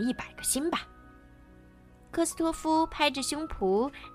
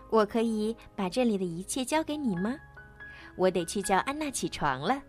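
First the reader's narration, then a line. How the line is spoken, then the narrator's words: Smiling question. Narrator (Chinese): 艾莎微笑着…问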